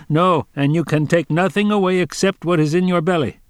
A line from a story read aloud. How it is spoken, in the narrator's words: a man stood near who was some sort of a guard of the place, he said sharply